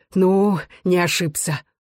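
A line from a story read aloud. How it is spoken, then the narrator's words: Joyful. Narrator (Russian): Игнат радостно сказал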